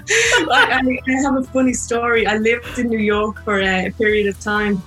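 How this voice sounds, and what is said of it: Irish accent. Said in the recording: “because of my accent ... are you speaking Gaelic? ... all Irish people”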